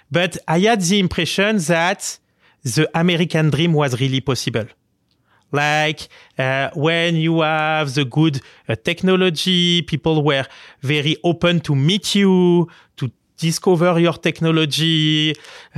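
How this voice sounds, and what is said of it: French accent. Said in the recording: “a Paris French person with such a charming, beautiful French accent”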